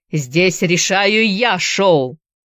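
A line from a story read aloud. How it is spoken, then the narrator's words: Barked. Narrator (Russian): рявкнул Трейси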